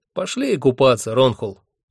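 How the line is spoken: Cheerful suggestion. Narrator (Russian): весело предложил мне Хехельф

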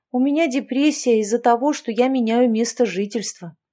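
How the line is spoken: Sigh. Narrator (Russian): вздохнула она

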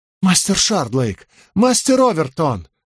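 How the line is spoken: Exclamation. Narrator (Russian): воскликнул он

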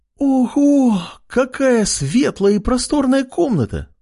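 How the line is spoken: Delighted exclamation. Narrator (Russian): воскликнула восхищенная Ама

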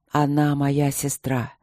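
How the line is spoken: Hoarse, after hesitation. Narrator (Russian): сипло сказал он наконец

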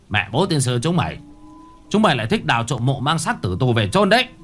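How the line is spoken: Caretaker's angry shouting. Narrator (Vietnamese): Người quản trang miệng nói như quát

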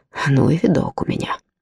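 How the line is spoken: Muttered. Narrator (Russian): пробормотал

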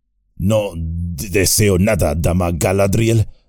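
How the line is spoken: Stammering. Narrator (Spanish): dijo Gimli balbuceando

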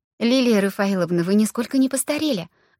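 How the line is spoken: Exclaimed. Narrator (Russian): воскликнула Аня

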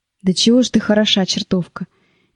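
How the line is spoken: Joyless sigh. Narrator (Russian): невесело вздохнул Гога

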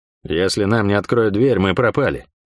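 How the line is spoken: Outwardly calm, uneasy voice. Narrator (Russian): говорил он спокойно, но голос меня не обманул

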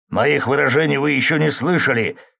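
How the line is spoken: Snapped back. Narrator (Russian): огрызнулся Григорий Семенович

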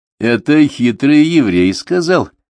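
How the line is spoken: Clarifying, then laughing. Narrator (Russian): уточнил Вениамин и засмеялся

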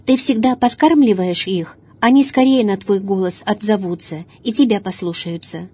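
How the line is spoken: Plain. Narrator (Russian): сказал отец

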